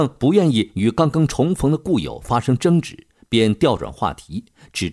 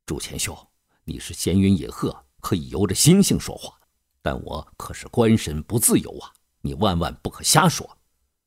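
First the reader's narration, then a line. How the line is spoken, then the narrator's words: Hushed, cautious. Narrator (Chinese): 张居正担心隔墙有耳，压低声音说道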